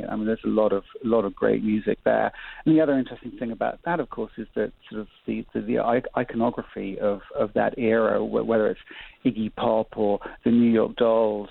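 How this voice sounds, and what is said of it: English accent. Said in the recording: “anybody who hears your voice can tell that your accent gives you away ... You're from England”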